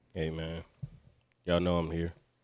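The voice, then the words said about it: Deep smooth late-night radio voice. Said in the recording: “he got the late night radio voice on”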